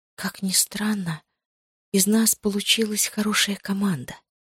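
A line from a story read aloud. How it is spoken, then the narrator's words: Whisper. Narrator (Russian): прошептала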